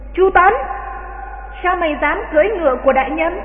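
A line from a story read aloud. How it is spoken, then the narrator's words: Soldier's shout. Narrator (Vietnamese): Tên quân giữ ngựa quát lên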